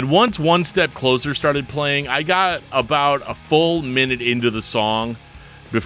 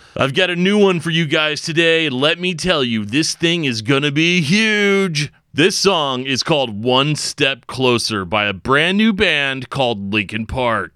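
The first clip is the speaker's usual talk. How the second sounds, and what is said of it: Radio DJ voice. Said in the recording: “I'll try to do my best uh, radio DJ voice”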